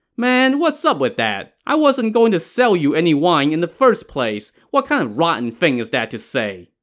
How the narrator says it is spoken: the wine peddler scoffed and said to Yang Zhi

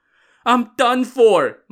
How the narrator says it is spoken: Marshal Hong cried

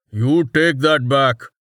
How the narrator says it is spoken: Tech growled

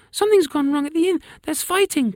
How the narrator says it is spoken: cried Sophia

